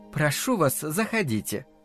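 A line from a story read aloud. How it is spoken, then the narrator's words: Gentle female voice. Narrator (Russian): ласково произнесла женщина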